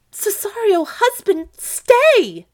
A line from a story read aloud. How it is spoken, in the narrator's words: A great fear took hold on Olivia, and she cried aloud